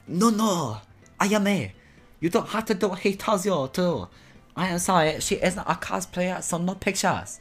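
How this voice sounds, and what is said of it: Put-on foreign accent. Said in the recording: “that's beyond racist... your accent?”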